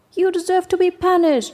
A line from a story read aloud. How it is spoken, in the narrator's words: shouted the animals in anger